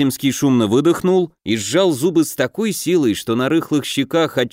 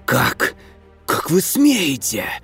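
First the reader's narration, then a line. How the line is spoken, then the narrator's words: Hissed. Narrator (Russian): прошипел Вяземский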